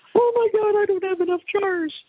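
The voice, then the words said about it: High-pitched whiny voice. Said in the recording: “that was a pretty good impersonation. ... The high pitch. ... the high pitch whine was exactly perfect”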